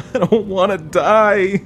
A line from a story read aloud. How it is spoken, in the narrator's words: I wail